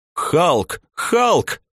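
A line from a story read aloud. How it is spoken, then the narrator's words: Crowd shouting. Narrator (Russian): заорали студенты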